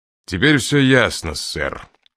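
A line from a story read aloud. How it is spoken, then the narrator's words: Mocking snort. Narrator (Russian): насмешливо фыркнул Мастерс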